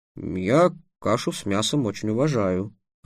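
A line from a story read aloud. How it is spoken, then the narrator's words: Said timidly. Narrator (Russian): робко сказал Иэн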